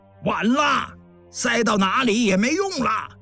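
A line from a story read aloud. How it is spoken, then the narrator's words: Shout. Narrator (Chinese): 洞外有人喊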